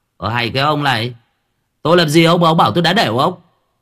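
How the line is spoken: Irritated snap. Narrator (Vietnamese): Cậu gắt

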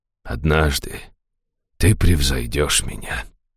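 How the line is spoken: Quiet. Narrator (Russian): тихо сказал он

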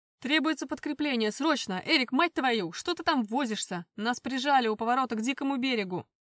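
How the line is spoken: Shouting into phone. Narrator (Russian): Прокричал в мобильник Алекс

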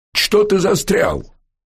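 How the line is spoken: Sharp shout through collar. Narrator (Russian): прикрикнул на Баха через поднятый каракулевый воротник Бердышев

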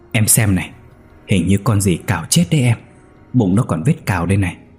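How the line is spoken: Muttering. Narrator (Vietnamese): Chú lẩm bẩm

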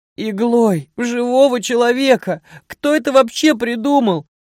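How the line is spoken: Shouting. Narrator (Russian): закричал

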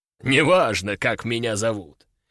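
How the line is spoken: Deep bass voice. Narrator (Russian): пробасил

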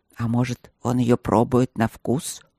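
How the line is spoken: Displeased grumble. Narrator (Russian): недовольно проворчал друг

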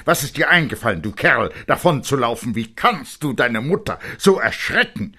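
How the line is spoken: Angry voice. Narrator (German): Seine Stimme war zornig

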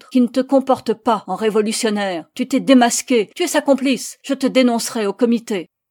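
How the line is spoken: Barked. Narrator (French): aboya

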